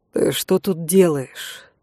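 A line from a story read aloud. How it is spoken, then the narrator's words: Resigned sigh. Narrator (Russian): обреченно вздохнула я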